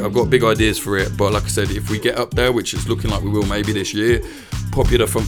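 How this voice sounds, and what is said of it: Tired, worn-out voice. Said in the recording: “I'm sorry I'm so tired. I sound tired, but I'm absolutely knackered.”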